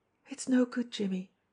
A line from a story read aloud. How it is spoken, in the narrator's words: she said softly